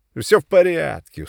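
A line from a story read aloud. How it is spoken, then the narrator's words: Reassuring. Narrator (Russian): успокоил Сашка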